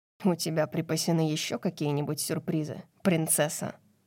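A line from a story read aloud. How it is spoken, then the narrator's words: Angry question. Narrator (Russian): Злобно спросил он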